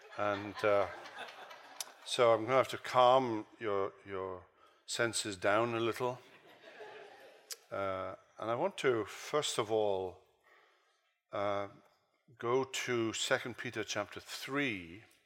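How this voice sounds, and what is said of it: British accent. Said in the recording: “a guy with a British accent”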